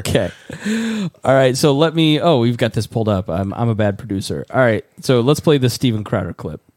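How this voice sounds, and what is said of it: Strained, worn-out voice. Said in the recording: “It's dry in here. ... I've been singing to the new Beatles album all day, and my voice is shot.”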